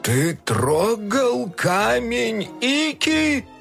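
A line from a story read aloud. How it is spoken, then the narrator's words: Yelled. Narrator (Russian): Завопил он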